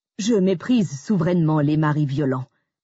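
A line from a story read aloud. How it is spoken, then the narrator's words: Firm tone. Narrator (French): lâche l'intéressé d'un ton ferme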